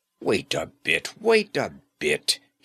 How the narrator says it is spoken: he cried excitedly

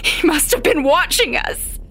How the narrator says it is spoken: I gasp

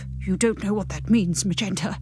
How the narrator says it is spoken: he whispers in a frightened voice

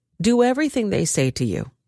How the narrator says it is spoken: the Lord replied

